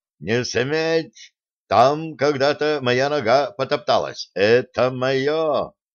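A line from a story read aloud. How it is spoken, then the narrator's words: Hoarse shouting. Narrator (Russian): до хрипоты кричал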